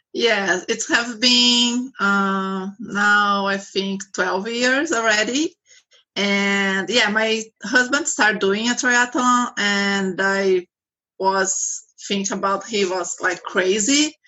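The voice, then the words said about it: Brazilian accent. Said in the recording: “sorry, I have accent. I am from Brazil.”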